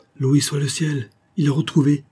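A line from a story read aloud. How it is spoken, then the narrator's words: Exclaimed. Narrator (French): s'écria Mrs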